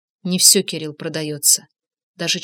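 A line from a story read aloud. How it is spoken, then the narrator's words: Low chesty voice. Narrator (Russian): Инга низким грудным голосом отвечала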